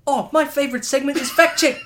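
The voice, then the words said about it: Weak put-on New Zealand accent. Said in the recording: “Do the Kiwi accent... I can't do a good Kiwi accent.”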